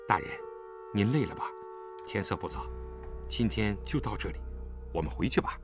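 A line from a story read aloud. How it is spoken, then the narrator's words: Low voice. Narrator (Chinese): 低声对他说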